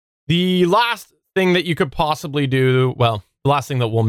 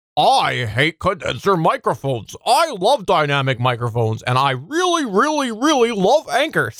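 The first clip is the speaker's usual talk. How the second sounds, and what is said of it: Imitates another person's voice. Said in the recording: “your best impression ... See, spot on SP impression. Spot on.”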